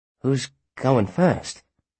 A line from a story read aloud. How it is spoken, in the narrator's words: asked, his voice breaking